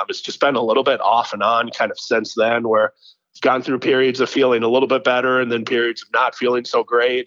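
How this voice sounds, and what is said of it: Sick, under-the-weather voice. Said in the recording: “I apologize if you can hear it in my voice... I've been a little bit under the weather here for about the last 5 days”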